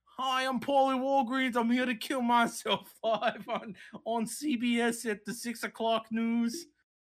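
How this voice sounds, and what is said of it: Put-on Australian accent drifting Boston. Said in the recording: “At first, it was a pretty good Australian accent, and then it started fucking morphing into Australian man had a stroke ... Into a Boston accent”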